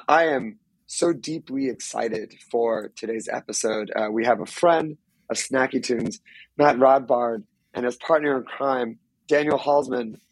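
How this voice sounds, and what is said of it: Hoarse voice. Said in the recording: “Please excuse my hoarse, non COVID related voice ... I was screaming into the void this weekend and it has not come back”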